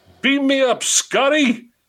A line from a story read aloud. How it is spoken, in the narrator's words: Miller was screaming